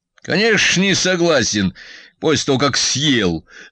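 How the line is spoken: Good-natured joking. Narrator (Russian): добродушно пошутил батя

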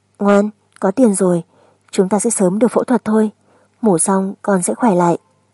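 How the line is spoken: Gentle, half to herself. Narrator (Vietnamese): nói với con cũng như tự nói với mình

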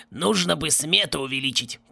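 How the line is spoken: Hoarse wheeze. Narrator (Russian): прохрипел он

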